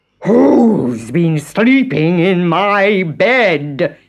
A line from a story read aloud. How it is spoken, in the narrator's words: He roared